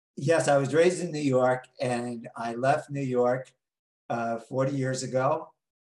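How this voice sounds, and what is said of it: New York accent. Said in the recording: “I still have my New York accent ... New York accent ... the way he says coffee ... exactly how you say it”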